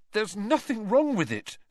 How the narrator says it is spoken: said Harry, his voice shaking slightly

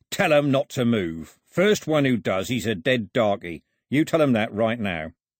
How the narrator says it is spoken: He pulled out his other pistol and growled

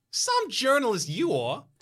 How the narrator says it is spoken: she snaps

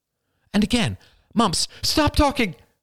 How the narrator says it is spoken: cried Marie

